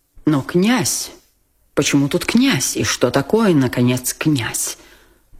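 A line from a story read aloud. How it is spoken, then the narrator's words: Barely restrained indignant mutter. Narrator (Russian): Пробормотал генерал, почти уже не в силах сдержать негодование на такой обидный даже авторитет князя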